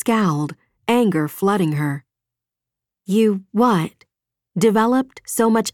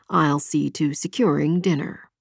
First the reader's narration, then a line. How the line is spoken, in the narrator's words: murmured